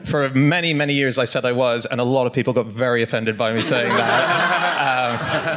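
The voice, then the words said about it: Unplaceable mixed accent. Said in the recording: “I have a literally unplaceable accent”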